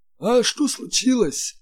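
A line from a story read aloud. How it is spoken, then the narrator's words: Strained, forced out. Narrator (Russian): выдавил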